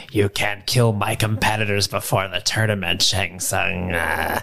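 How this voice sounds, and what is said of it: Imitates another person's voice. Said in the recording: “great Christopher Lambert impression”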